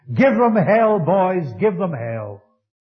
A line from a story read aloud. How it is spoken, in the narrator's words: one man was heard to shout out to the soldiers